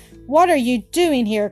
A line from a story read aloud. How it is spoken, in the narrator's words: cried Jean, astonished to see him